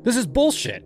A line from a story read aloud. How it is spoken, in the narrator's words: snapped